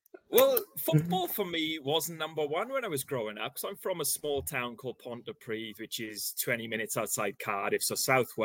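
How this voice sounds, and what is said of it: Welsh accent. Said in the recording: “not a Brummie accent either, and you've explained you're from Wales”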